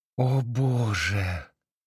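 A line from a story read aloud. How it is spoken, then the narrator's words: Moan. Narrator (Russian): простонала Джилл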